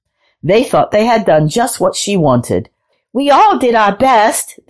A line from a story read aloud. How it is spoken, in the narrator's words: they called out